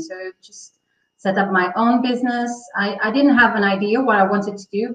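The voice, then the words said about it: Portuguese accent. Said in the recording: “are, you Portuguese? ... Yes. I'm a, Portuguese. ... Can you tell from the accent?”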